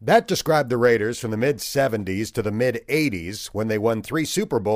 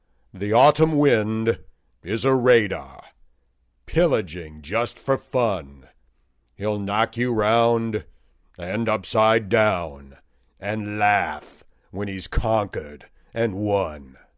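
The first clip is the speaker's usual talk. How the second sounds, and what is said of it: Imitates a deep narrator's voice. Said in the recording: “in my best John Facenda voice.”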